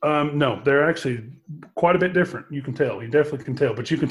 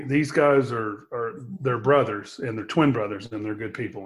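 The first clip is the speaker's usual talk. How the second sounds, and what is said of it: Emotional, choked-up voice. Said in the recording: “I'm a little emotional ... that's why I get a little emotional.”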